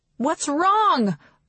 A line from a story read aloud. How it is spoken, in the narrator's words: Aurora shouts